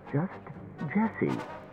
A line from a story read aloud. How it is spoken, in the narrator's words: she said tightly